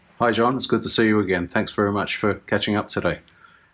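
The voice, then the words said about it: Australian accent. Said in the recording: “You'll hear in a moment his Aussie accent.”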